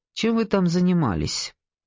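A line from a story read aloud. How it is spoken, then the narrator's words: Dry question. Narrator (Russian): Морис сухо спросил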